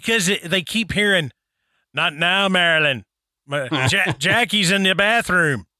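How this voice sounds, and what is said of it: Bad imitation of another person's accent. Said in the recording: “That has got to be the worst accent... That was horrid... it was absolutely terrible.”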